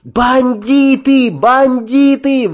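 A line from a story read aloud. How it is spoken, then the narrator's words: Ceaseless screaming. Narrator (Russian): вопила она, не переставая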